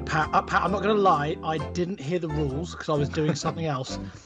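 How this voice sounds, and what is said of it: Imitates another person's voice. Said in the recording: “why are you doing a Mark impression?”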